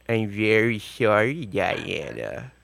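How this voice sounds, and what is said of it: Imitates the cartoon character Droopy. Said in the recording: “the droopy voice ... My droopy impression.”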